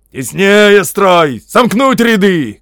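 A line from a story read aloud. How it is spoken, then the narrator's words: Shouting. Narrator (Russian): кричали сержанты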